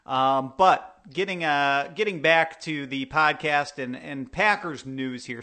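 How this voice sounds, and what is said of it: Thick Wisconsin accent. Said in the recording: “two thick Wisconsin accents”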